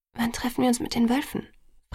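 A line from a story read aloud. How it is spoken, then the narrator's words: Quiet question. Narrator (German): fragte ich leise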